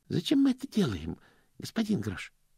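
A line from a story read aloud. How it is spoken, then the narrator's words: Timid question. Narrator (Russian): робко спросил Стэнли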